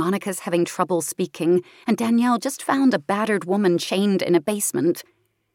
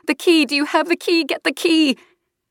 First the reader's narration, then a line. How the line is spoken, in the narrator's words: Monica's yelling at Danielle, pleading